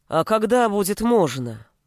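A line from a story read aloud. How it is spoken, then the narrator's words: Deep bass voice. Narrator (Russian): заговорил другой парень густым басом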